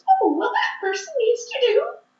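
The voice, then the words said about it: Very high-pitched voice. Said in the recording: “I hear one that has a very high voice that sounds like this.”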